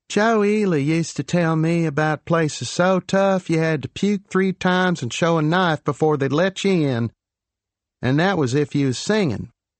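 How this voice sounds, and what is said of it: Deep put-on Texas accent. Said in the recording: “affected a deep, deep Texas accent”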